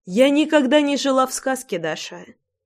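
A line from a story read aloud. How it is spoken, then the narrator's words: Calm reply. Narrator (Russian): спокойно ответила Ратти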